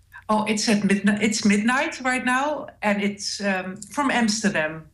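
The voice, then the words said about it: Dutch accent. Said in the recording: “I love your accent. ... I'm Dutch”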